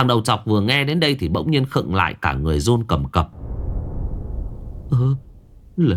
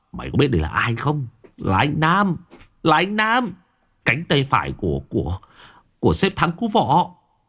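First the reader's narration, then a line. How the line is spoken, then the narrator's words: Menacing emphatic tone. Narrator (Vietnamese): Phong Mặt Sẹo gằn giọng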